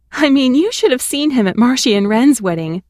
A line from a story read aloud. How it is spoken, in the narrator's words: she laughed